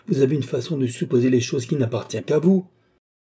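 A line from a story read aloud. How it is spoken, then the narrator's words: Exclaiming. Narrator (French): s'écria Madame du Barry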